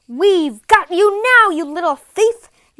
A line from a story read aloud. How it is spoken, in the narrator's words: yelled one of the men